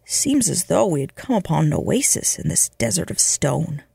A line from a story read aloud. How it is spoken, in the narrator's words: muttered Tonnison